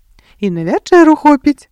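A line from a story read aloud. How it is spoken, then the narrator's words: Smiling crayfish speech. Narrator (Belarusian): усміхнуўся маўклівы рак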